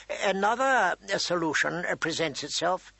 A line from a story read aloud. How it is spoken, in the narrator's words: he said, his voice quiet